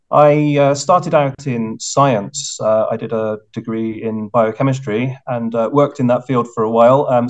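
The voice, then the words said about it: British English accent. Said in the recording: “as you can probably tell from my accent, I'm originally British”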